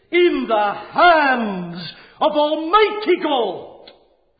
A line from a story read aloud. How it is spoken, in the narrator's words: cried Luther